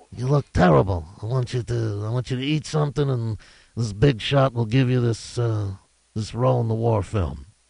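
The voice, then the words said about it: Godfather character impression voice. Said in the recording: “that's your Godfather moment and your impression”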